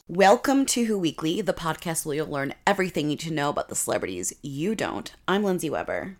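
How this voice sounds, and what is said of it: Husky voice from being sick. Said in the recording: “if you don't recognize my voice, it's because I'm a little sick, so I sound like a sexier version of myself ... I had like a tickle in my throat ... woke up this morning with kind of this voice”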